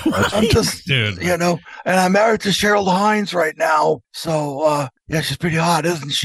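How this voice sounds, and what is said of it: Gravelly old prospector-like voice. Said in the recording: “RFK Jr. sounded like an old prospector”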